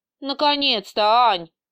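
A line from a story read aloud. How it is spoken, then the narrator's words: Near wail. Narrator (Russian): едва не взвыла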